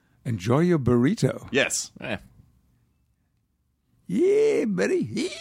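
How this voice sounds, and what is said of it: Put-on American old prospector accent. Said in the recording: “Maybe you should say that in your favorite American accent ... the old prospector just, just came in.”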